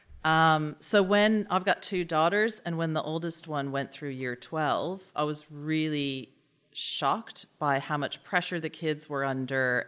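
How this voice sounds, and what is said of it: American accent. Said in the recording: “as you'll be able to tell from my accent, as I keep talking, I didn't grow up here ... in America”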